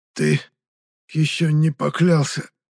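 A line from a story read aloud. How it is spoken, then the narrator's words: Hoarse rasp. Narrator (Russian): прямо просипел аристократ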